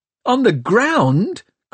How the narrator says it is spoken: cried Tom

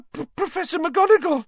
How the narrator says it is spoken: Hermione gasped

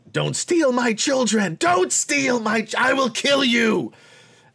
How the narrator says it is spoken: she's yelling about

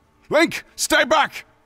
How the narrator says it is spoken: Raudu shouted urgently

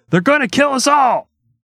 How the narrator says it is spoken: Governor Connally shouted

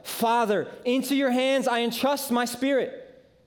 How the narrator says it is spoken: in the midst of this pain and this anguish, Jesus somehow musters up the strength to yell

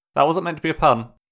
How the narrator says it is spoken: he added quickly

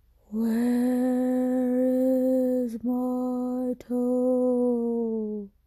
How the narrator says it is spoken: it groaned

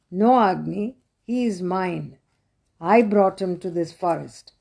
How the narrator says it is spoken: said Ganga

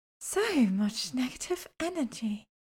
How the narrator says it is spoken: she said dreamily

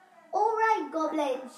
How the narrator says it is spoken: shouted Kirsty

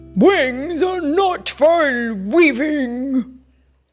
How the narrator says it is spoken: roared Robert

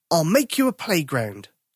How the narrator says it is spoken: Tom said

